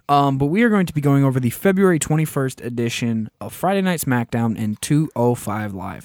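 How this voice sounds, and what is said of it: Hoarse, fading voice. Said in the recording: “As you can hear, I'm slightly losing my voice. ... this actually is the second time I've lost my voice”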